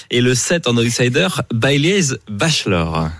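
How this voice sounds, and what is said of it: Bad English accent on names. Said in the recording (French): “j'ai un mauvais accent anglais”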